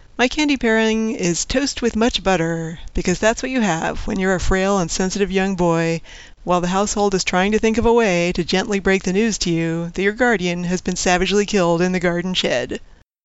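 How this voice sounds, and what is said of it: Non-American accent, sounds classy. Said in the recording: “your accent, for making your podcast sound just a little bit classier than our normal American trash”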